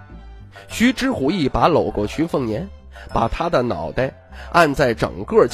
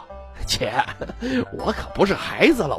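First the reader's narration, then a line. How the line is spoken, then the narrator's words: Laughing. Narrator (Chinese): 徐凤年 哈哈道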